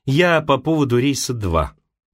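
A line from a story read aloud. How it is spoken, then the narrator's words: Dry. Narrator (Russian): Таня сказала сухо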